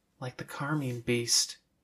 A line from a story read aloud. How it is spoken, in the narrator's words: Avery whispered under her breath